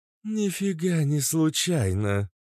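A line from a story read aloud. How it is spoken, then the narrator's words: Low booming voice. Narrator (Russian): прогудела Кобра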